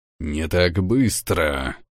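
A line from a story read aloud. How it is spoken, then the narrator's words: Guard growling. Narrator (Russian): прорычал стражник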